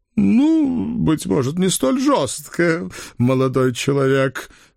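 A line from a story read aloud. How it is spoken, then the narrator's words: Uncertain smirk, bald man. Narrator (Russian): неуверенно усмехнулся лысый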